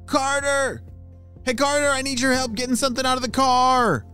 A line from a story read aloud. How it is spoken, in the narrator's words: shouted one of his parents